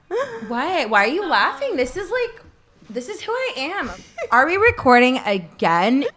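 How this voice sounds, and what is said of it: Put-on Californian girl accent. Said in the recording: “You got accents or dialect. How about what's the Californian girl sound like?”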